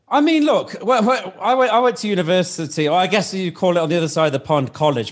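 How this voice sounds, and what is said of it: British accent. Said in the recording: “My accent is British”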